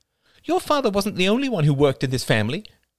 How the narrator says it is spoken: snapped Ethel, her eyes full

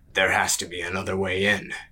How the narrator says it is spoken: he rumbled

